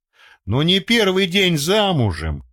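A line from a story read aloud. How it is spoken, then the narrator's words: Chuckling. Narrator (Russian): хохотнул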